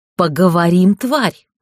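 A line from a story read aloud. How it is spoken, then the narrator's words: Hissed. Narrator (Russian): прошипел он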